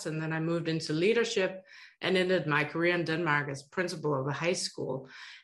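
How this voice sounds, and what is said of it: Danish accent in English. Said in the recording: “Denmark, where my accent is from”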